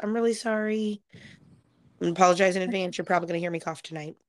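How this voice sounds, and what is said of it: Hoarse voice. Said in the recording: “My voice is still really hoarse.”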